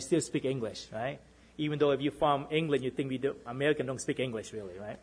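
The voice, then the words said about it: Boston accent. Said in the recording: “I have a Bostonian accent”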